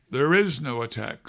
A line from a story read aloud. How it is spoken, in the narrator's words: said Kathy evenly